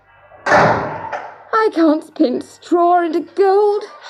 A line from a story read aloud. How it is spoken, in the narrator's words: sobbed